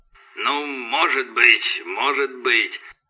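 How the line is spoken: Mumbling. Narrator (Russian): забормотал Росс

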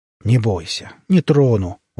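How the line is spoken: Smirking. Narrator (Russian): усмехнулся он

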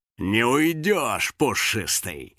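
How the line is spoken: Villainous cackle. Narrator (Russian): злодейски хохотал Юджин

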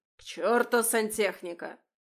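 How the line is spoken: Barked, then abrupt tone shift. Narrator (Russian): рявкнул и вдруг резко сменил тон

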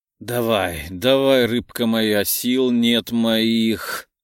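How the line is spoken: Wheezing, choking on words. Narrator (Russian): Просипел, давясь словами

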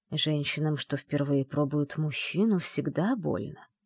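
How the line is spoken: Muttered. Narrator (Russian): пробормотал древнейший

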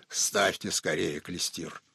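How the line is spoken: Hoarse rasp. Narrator (Russian): прохрипел

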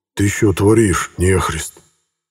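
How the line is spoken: Elder's hiss. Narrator (Russian): прошипел старший

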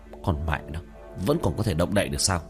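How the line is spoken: Muttering. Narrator (Vietnamese): lẩm bẩm

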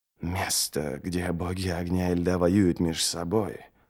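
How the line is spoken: Whisper. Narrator (Russian): прошептал Ничто

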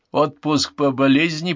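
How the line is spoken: Grumbled. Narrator (Russian): проворчал Брюс

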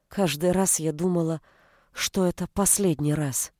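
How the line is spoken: Quietly said. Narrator (Russian): тихо произнесла

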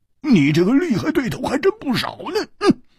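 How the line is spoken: Wry smile. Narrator (Chinese): 胡铁花苦笑着说

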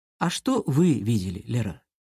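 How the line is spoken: Soft, almost tender question. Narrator (Russian): Мягко, почти ласково задал вопрос Громов

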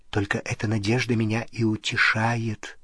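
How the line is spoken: Whisper. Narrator (Russian): прошептала она

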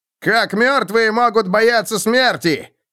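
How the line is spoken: Shouted. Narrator (Russian): крикнул Роди

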